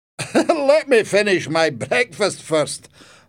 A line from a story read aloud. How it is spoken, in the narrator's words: grandfather laughed